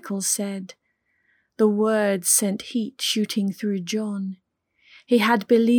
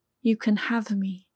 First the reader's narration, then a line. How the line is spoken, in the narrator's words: replied